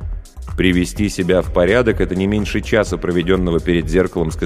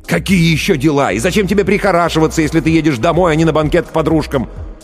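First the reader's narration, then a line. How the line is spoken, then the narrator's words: Near shout. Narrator (Russian): Увидев, что стало холоднее еще на 1 градус, Ллойд почти кричал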